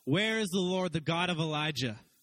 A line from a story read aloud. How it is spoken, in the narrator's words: cried out